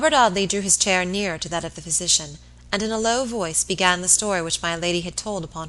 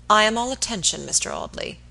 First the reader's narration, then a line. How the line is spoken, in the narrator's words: he said coldly